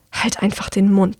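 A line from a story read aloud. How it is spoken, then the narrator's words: Girl hissing. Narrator (German): zischt das Mädchen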